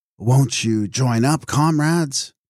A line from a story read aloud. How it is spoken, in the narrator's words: say in a moving voice